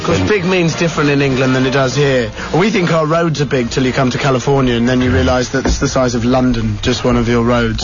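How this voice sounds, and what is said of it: English accent. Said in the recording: “I also have a foreign accent ... he's got that fake accent ... the Queen's English”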